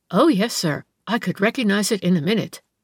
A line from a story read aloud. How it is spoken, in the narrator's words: the latter exclaimed